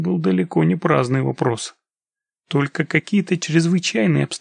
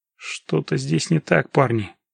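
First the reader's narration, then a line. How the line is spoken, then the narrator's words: Muttering. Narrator (Russian): пробормотал он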